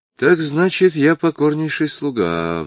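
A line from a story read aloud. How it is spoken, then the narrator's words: Sigh. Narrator (Russian): вздохнул он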